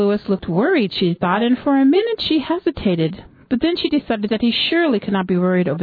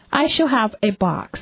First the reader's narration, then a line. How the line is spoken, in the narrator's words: Miss Strangeworth said